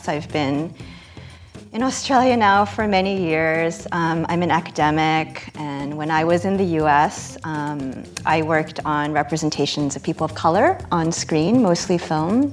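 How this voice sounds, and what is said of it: American accent. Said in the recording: “you can probably tell from my accent, I'm from the US”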